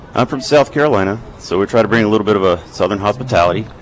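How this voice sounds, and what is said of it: Slight Southern US accent. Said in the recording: “a touch of a southern accent”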